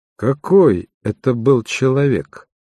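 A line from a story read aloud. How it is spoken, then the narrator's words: Plain. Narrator (Russian): спросил Шерлок Холмс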